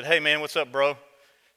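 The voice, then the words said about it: Impression of a friend's casual greeting. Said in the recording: “that's my Dan impression”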